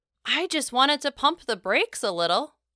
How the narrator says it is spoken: I exclaimed, perhaps too aggressively

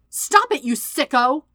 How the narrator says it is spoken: Sokka's shout

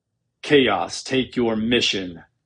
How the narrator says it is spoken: Vader growled

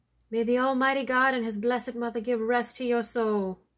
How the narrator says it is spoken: cried the wife

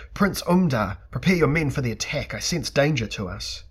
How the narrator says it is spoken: Theleb Ka'ana shouted in hysteria

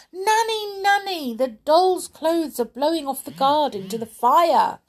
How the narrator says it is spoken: cried the little girl

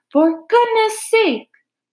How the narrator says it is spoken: bellowed Mr

